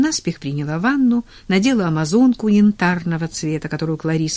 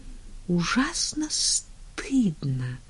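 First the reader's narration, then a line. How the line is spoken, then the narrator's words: Quiet confession. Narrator (Russian): призналась она тихо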